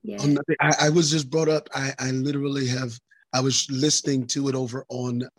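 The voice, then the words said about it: Hoarse, weak, nearly lost voice. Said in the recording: “You sound, you okay? ... my voice. I've lost my voice. My voice is gone. ... I'm trying to get it back.”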